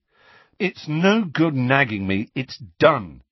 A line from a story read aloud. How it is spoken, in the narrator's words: he said firmly